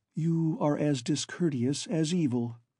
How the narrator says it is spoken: she retorted quite calmly

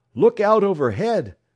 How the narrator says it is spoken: someone shouted

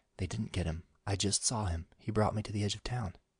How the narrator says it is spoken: Diana whispered

